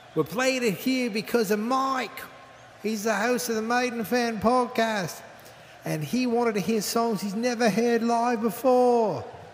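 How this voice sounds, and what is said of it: Poor put-on British accent. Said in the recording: “my British accent's awful”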